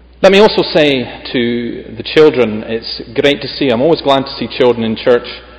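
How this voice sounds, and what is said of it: Noticeable regional accent, fairly fast speech. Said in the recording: “I do hope that you're able to follow my accent, and I will try and restrain the speed.”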